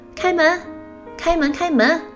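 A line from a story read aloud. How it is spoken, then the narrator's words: Sudden female voice. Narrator (Chinese): 忽然声音变成了女声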